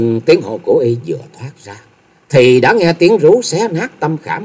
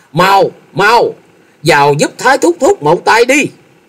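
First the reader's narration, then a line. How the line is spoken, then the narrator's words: Panicked shout. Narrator (Vietnamese): Thôi Dân thất kinh hét lớn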